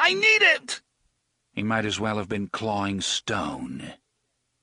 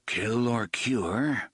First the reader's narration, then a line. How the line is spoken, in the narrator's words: Roland murmured